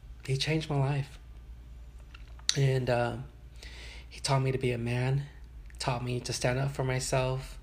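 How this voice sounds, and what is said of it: Emotional voice. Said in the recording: “I'm a little emotional right now”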